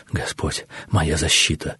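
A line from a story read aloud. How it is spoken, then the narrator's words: Anxious whisper. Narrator (Russian): шептал Эбарей, силясь отогнать мрачное предчувствие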